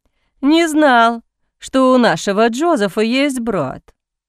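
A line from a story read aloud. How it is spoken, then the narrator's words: Irishman chuckling. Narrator (Russian): хохотнул ирландец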